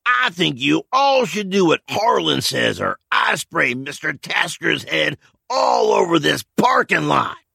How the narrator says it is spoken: Through gritted teeth, Carl announced loudly

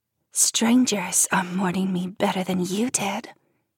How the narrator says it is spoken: Jen hisses in my ear

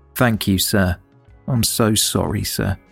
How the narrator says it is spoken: said quietly

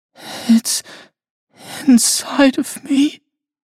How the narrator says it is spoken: whimpered

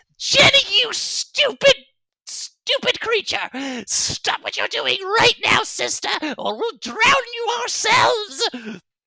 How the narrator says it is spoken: Gray Aura Fish Shuffler screams out

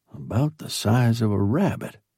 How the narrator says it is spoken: I muttered

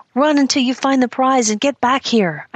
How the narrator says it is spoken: I shrieked to Noel

